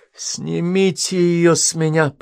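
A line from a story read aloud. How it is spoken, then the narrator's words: Moaning through clenched teeth. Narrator (Russian): простонал он сквозь стиснутые зубы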